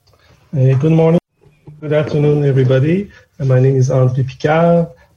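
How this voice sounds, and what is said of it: Quebec French accent in English. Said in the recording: “As you can hear from my accent, this is not a French accent, this is a Quebec accent.”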